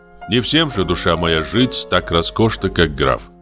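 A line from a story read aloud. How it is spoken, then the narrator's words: Plain. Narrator (Russian): сказал я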